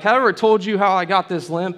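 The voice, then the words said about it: Cowboy accent character voice. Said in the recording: “I don't know why I gave him that accent. That was weird. He's not a cowboy”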